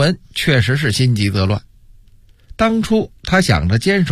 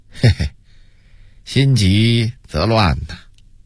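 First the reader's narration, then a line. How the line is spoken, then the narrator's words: Calm, wry amusement. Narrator (Chinese): 朱棣摇头一笑，对一旁的金钟淡淡的说道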